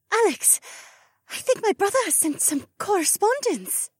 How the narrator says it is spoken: breathed

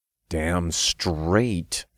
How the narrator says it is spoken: I growled

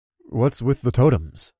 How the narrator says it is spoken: I asked with a nervous chuckle

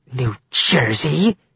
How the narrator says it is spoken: snarled

